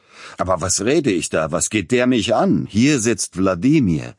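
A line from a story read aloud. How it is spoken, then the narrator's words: Sudden, almost angry outburst. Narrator (German): Plötzlich aber unterbrach Peter Iljitsch seinen galanten Redeschwall und rief beinahe zornig aus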